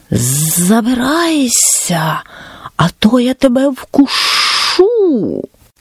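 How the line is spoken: Snake's hiss. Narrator (Ukrainian): Змія зашипіла

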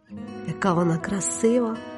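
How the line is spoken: Muttering. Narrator (Ukrainian): бурмотіла я

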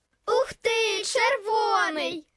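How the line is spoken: Children shouting joyfully. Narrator (Ukrainian): радісно закричали діти

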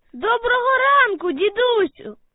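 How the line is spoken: Child shouting from afar. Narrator (Ukrainian): Здалеку закричав хлопчик

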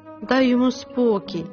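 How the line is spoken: Plain. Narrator (Ukrainian): сказала Тереза

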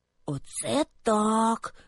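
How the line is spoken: Whispered. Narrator (Ukrainian): прошепотів Льоня

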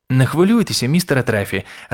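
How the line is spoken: Joyful reply. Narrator (Ukrainian): радісно відповів Крісті

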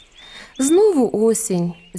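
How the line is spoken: Girl sighing. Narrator (Ukrainian): зітхнула дівчина

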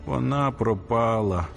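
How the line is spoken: Moan. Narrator (Ukrainian): застогнав він

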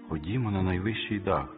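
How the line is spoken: Plain. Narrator (Ukrainian): сказала вона

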